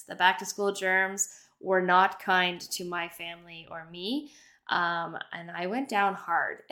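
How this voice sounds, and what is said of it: Slightly wonky voice from illness. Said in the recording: “my voice sounds a little bit wonky today, I am getting over epic illness”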